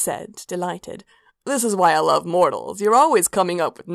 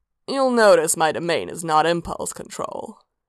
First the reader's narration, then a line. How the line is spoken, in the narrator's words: Sanguine said dryly